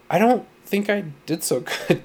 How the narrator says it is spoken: Cheryl said timidly

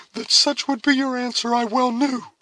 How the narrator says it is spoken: exclaimed Cora, her cheeks flushing, and her dark eyes once more sparkling with the lingering emotions of a woman

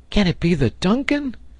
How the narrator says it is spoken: he cried

